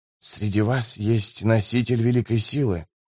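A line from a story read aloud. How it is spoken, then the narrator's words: Whispered. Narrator (Russian): прошептал он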